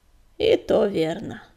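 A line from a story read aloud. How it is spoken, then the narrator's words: Sigh. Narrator (Russian): вздохнул Макроус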